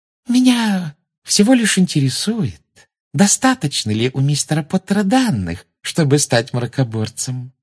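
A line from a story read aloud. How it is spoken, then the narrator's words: Sugary sing-song voice. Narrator (Russian): сладким голоском пропела Амбридж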